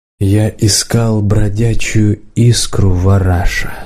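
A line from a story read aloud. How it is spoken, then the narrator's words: Plain. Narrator (Russian): сказал подставка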